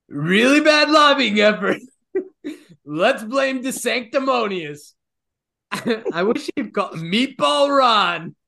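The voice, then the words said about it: Donald Trump impression. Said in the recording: “in the Donald Trump voice ... I love the accent.”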